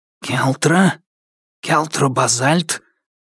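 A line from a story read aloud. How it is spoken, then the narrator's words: Unfamiliar hissing voice. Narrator (Russian): прошипел незнакомый голос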